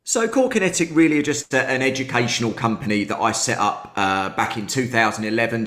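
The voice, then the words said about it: British accent. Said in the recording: “when I heard the accent, I was going to say Texas, maybe Louisiana, something like that... as soon as you guys start talking with the accent, you get like 10 or 15 IQ points added on. You just sound smarter.”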